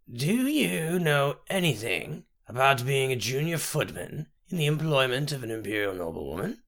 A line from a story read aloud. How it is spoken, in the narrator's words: Her voice was like ancient leather